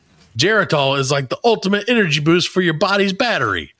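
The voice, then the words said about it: Put-on accent, not a good one. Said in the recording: “This is not a good accent.”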